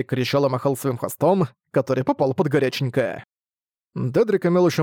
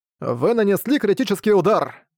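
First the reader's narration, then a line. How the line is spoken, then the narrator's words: Cried out. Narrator (Russian): Мангуст вскрикнул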